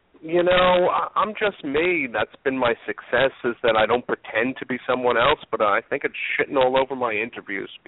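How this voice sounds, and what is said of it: New York accent. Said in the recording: “modifying or toning down your accent ... I'm too New York, too Jewish ... I love the accent.”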